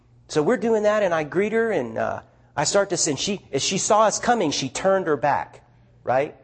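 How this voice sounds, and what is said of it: Southern American accent. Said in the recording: “You sound Southern.”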